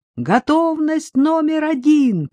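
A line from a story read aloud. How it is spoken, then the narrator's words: Shouted from above. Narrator (Russian): прокричал сверху Шевцов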